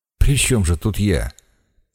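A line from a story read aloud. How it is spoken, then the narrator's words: Dejected remark. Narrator (Russian): уныло заметил Пафнутьев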